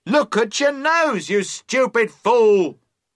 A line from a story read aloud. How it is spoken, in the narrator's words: the voice cried again, more loudly this time